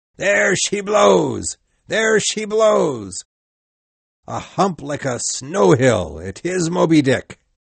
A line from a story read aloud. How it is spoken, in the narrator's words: we heard him shout